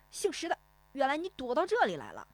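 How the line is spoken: Loud, grinning man. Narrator (Chinese): 那个买鱼的胖脸男人咧嘴大声说

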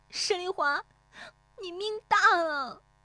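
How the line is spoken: Tearful shout. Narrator (Chinese): 乔红梅悄然变色，带着哭腔喊

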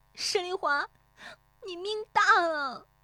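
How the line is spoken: Tearful cry. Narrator (Chinese): 乔红梅悄然变色，带着哭腔喊

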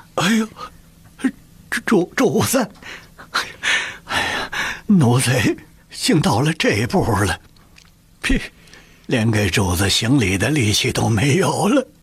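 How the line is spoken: Breathless, sobbing mumble. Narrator (Chinese): 李卫喘过气儿来 呜的一声就哭了，喃喃地说

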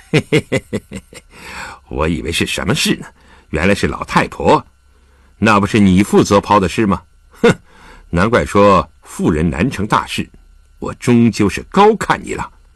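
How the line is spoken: Cold sneer. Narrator (Chinese): 沈怀冷笑起来

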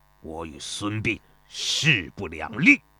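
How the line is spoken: Furious, teeth gritted, trembling. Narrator (Chinese): 邹忌每当想起此事，便气得浑身哆嗦，他咬牙切齿地说道

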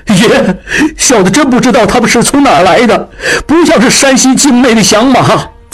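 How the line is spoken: Crying. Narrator (Chinese): 金宝哭道

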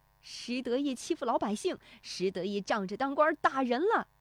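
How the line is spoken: Howling curses, shouting. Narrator (Chinese): 石德昌嗷嗷咒骂着，一路叫喊着

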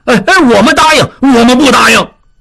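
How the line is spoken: Clamoring crowd. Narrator (Chinese): 众人分成几波嚷嚷着

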